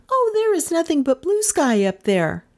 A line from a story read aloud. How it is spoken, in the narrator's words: she cried